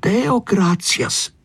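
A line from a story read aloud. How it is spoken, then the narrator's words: Clear voice. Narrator (Italian): disse Tonio a voce chiara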